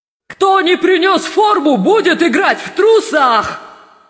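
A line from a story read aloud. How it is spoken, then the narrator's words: Shouting. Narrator (Russian): закричал Думинг Тупс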